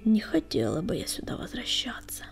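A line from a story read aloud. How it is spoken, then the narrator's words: Muttering. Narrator (Russian): пробормотала песчаная буря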